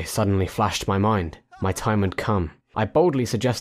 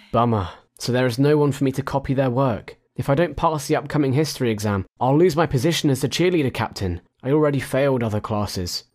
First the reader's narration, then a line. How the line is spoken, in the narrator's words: She sighed